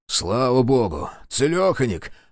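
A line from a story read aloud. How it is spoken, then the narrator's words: Relieved exhale. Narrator (Russian): выдохнул Терентьев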